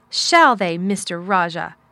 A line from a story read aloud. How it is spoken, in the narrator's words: said fiercely